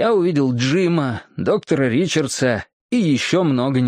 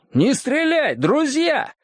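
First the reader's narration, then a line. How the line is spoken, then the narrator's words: Shouted. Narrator (Russian): кто-то не крикнул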